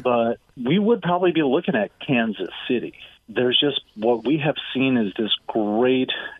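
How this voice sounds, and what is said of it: Noticeable non-local accent. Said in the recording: “my funny accent, because I'm not from Houston”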